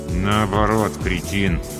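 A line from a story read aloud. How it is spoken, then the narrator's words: Forced through tight-lipped smile. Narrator (Russian): Я растянул губы в улыбке, не разжимая их, выдавил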